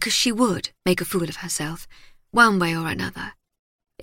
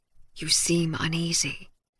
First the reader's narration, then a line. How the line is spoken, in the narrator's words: Bacchus whispered